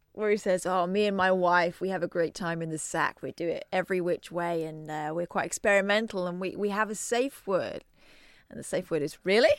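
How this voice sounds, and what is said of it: Inconsistent put-on American accent. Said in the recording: “you kind of didn't quite commit to the American accent, so it went back and it went forth there, and it was sometimes it was you”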